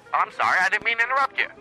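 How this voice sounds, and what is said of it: Polished phone voice. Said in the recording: “Are you jealous of my phone voice? ... If I could get a device that would make my voice sound like that”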